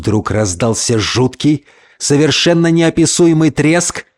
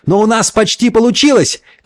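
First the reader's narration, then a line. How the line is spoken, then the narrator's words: Shouted reply. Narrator (Russian): крикнул в ответ Джексон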